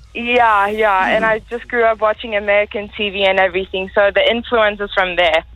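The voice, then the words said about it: American English shifting toward South African. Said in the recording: “Your accent sounds very South African... It's really changing... I came here with an American accent”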